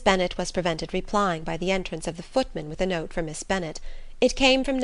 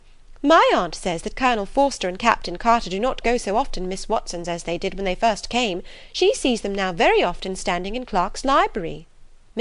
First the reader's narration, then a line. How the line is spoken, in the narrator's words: cried Lydia